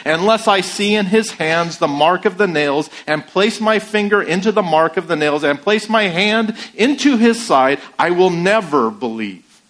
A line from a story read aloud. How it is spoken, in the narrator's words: In self-pity-fueled anger, he blurted out with more conviction than he felt